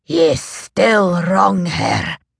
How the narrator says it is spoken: Troy rasped

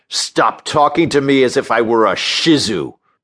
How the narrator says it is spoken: roared

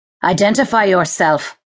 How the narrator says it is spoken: he commanded harshly

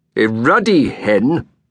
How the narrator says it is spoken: said crossly

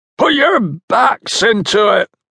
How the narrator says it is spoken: shouted Bullimore

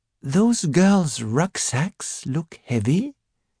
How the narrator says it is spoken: he said quietly

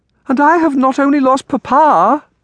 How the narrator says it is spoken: Amelia cried

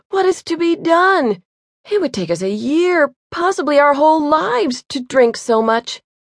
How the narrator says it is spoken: exclaimed

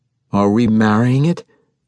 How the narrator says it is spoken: asked

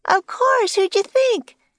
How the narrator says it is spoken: shouted Annie

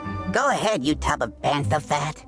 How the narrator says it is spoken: the Ortolan sneered

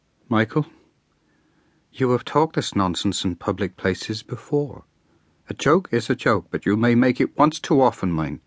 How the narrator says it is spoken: The woman turned to her husband and murmured

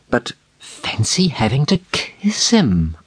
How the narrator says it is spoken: breathed

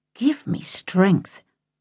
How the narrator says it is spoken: Jay sighed and muttered

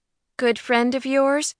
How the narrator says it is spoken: Quinn asked dryly

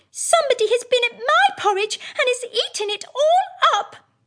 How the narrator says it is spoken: said the little wee bear in his little wee voice

